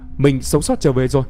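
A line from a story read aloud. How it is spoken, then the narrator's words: Loud shout. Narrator (Vietnamese): Y hét to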